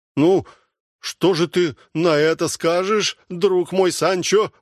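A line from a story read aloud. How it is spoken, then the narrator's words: Exclamation. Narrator (Russian): воскликнул Дон Кихот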